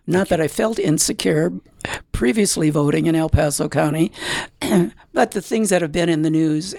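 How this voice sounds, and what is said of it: Scratchy voice. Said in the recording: “my voice is a little scratchy here”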